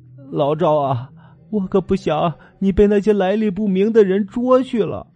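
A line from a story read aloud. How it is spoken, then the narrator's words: Wife, crying. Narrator (Chinese): 老赵的老婆哭着说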